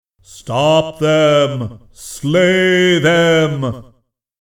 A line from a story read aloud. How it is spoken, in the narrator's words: They thundered now, those majestic thought voices that Ferris's mind could barely hear